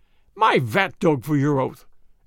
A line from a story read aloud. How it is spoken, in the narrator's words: exclaimed the vrouw